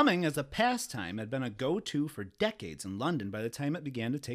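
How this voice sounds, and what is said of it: Usual voice. Nothing is said of it.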